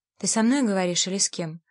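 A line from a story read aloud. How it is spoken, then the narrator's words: Sighing. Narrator (Russian): вздохнула Лу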